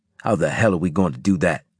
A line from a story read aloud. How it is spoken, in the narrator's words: Harris snapped